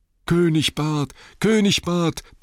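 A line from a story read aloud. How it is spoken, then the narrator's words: Crowd roaring. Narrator (German): brüllten die Leute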